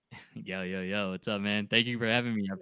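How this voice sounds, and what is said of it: Smooth radio DJ voice. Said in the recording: “got his DJ voice going on too as well ... the golden voice”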